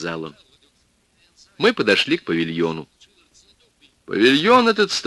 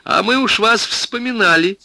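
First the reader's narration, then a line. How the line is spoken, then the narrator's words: Cheerful. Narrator (Russian): сказала весело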